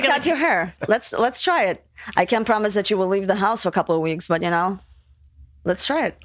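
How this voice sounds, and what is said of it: Foreign accent. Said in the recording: “her accent”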